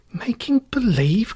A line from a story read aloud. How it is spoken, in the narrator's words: cried Dorothy